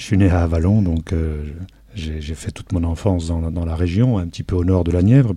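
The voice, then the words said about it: Local Burgundian regional French accent. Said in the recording (French): “je suis d'abord un bourguignon ... Ça s'entend un peu dans les chansons, puisque j'ai j'ai quand même un accent du terroir local.”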